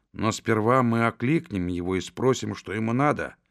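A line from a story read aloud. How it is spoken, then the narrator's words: Whispered, hunter. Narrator (Russian): прошептал зверобой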